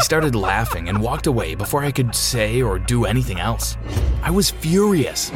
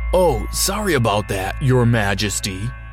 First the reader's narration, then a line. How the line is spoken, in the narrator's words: he said